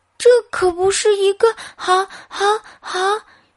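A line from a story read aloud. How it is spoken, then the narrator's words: Stammering. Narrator (Chinese): 斯泰吉结结巴巴的说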